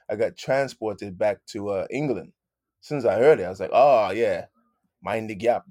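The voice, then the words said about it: Put-on British accent. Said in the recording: “I'm going with my British accent.”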